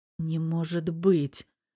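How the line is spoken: Hoarse rasp. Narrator (Russian): прохрипел Ник

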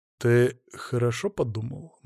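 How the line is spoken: Gloomy. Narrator (Russian): мрачно произнес я

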